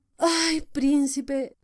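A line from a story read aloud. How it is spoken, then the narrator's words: Sighing. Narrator (Spanish): dijo suspirando otra vez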